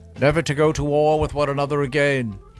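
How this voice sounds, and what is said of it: Weak put-on British accent. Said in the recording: “kind of a weak British accent out of you”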